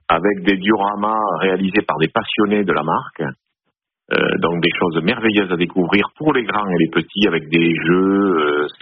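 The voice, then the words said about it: Slight southern French Toulouse accent. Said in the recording (French): “vous avez un et petit accent de Marseillais ou c'est du Sud-Ouest ... De la ville des champions de rugby, Toulouse.”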